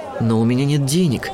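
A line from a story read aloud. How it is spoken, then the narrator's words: Confused mumble. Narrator (Russian): растерянно пробормотала Жасмин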